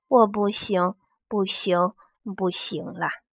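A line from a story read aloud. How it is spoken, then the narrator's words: Muttering to self. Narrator (Chinese): 喃喃自语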